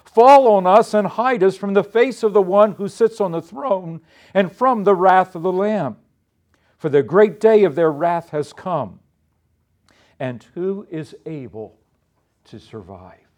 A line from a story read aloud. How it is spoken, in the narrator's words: they cried to the mountains and the rocks